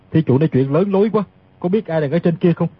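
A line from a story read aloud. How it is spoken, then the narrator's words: Cold, faint laugh. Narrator (Vietnamese): Tiết Thần Y cười nhạt nói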